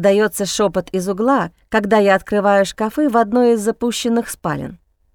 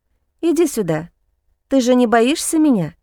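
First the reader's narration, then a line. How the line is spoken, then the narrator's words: Soft question. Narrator (Russian): мягко спрашиваю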